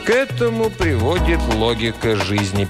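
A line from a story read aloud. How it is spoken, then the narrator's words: Sad reply. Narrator (Russian): печально ответил тиран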